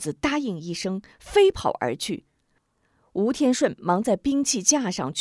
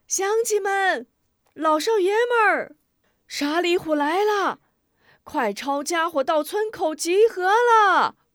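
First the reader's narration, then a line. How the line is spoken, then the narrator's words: Shouting. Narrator (Chinese): 这一货喊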